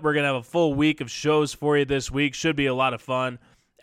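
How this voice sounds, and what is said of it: Slightly strained voice. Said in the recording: “If you can't hear it, my voice is a little strained ... just a little strained”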